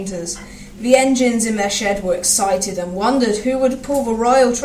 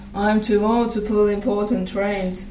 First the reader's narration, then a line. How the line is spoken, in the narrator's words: said Edward sadly